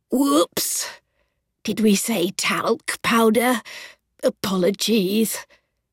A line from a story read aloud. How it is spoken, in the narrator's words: rasped Millie